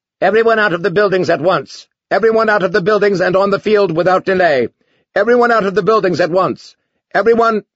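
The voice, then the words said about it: Shrill robotic announcer voice. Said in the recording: “robot voice announced shrilly”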